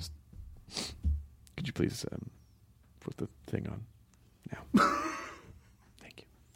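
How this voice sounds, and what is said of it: Usual voice. Nothing is said of it.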